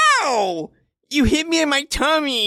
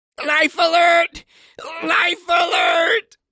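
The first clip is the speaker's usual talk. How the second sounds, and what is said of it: Shouting. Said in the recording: “Stop shouting”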